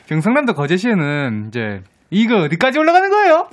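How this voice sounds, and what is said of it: Gyeongsang dialect, rising pitch. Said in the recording (Korean): “경상남도 거제시 출신 ... 사투리로 이거 어디까지 올라가는 거예요? 한번 해주세요. 저도 경상도 사람인데 가족들이랑 해보고 진짜 끝도 없이 올라가길래”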